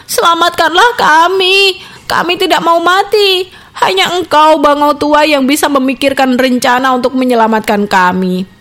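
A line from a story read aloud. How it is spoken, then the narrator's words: Pleading. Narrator (Indonesian): Mereka memohon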